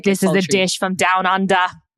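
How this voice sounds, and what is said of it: Sultry put-on Australian accent. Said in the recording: “I was trying to be a little bit like Australian and sultry.”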